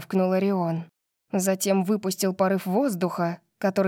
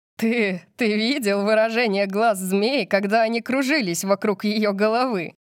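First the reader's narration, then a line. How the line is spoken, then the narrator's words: Loud laughter. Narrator (Russian): Тайлер Корбин расхохотался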